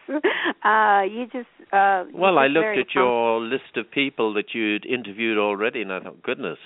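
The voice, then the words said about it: English accent. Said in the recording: “you have that English accent, which is just so... I don't know. I just love the accent. ... I think it's a wonderful accent.”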